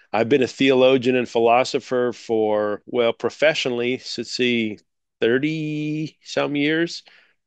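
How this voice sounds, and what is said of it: American accent. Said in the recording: “I'm coming to you from the United States, if you haven't can't tell by my accent already, from the state of Idaho up in the northwestern part”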